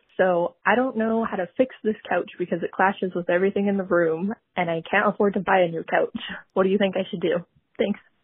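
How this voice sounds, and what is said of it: Canadian accent. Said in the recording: “I love a Canadian accent. ... It's so cute.”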